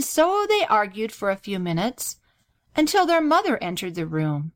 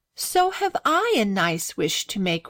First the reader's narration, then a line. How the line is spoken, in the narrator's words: replied Grace with a sigh